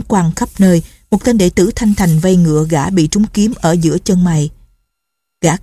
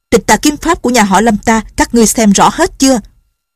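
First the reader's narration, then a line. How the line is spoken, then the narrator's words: Shouting. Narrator (Vietnamese): Lâm Bình Chi quát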